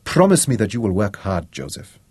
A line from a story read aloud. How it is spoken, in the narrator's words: Vicky said